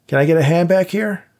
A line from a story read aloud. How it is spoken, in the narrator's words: Dave shouted